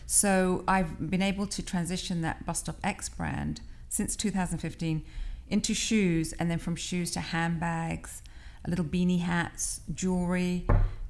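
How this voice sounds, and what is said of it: British North London accent. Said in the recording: “the lovely accent, ... is originally from London... North London”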